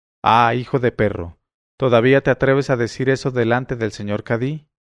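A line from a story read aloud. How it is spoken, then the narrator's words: Exclaimed. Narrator (Spanish): al oír aquello, exclamó el dueño del pato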